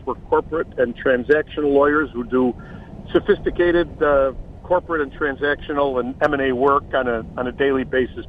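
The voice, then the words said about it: Chicago accent. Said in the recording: “that great Chicago accent ... I've tried to lose this accent for 60 years”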